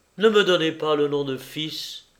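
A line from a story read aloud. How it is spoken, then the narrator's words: Muffled low voice. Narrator (French): dit Georges d'une voix sourde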